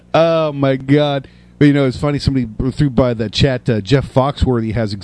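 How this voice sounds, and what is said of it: Usual voice. Nothing is said of it.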